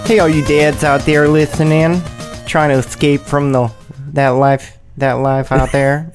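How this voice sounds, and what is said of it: Odd put-on accent. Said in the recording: “I don't know what kind of accent was that. Where did that come from?”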